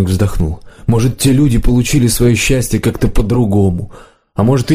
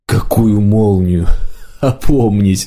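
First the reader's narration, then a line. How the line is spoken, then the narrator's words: Laughing. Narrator (Russian): маг засмеялся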